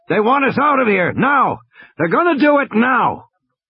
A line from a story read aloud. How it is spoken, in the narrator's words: Muldoon leaned over and shouted in Grant's ear